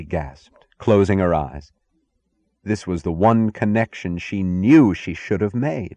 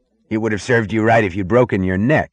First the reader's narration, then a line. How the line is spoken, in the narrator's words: the muscular man snapped at her with the anger of concern, almost of affection